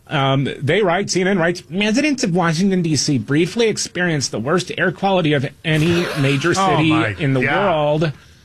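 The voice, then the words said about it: Whiny mocking caricature voice. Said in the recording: “my whiny liberal voice”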